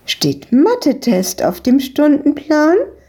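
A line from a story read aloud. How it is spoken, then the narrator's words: Woman calling out. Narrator (German): rief die Besitzerin von der Eisdiele ihnen zu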